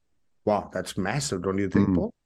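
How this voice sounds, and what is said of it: Sarcastic mock-impressed tone. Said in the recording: “I'm joking. I'm being sarcastic.”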